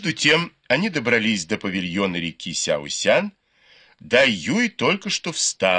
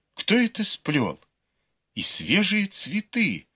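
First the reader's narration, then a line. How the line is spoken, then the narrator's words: Joyful exclamation. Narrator (Russian): она радостно воскликнула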